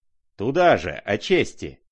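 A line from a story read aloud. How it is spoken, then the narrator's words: Angry shout. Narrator (Russian): крикнул он злобно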